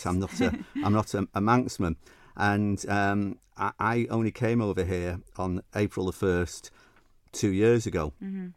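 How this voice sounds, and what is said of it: Northern English Mancunian accent. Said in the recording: “as you can tell by my northern Mancunian accent.”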